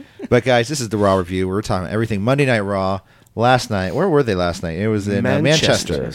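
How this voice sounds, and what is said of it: Usual voice. Nothing is said of it.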